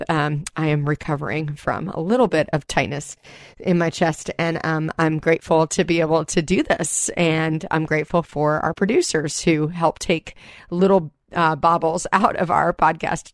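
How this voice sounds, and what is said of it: Weak, slightly breathless voice with cold. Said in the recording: “my voice is a little weak. I am having a little bit of a cold ... if I seem a little bit out of breath”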